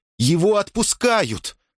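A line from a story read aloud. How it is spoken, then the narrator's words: Joyful shout. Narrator (Russian): радостно закричал Поль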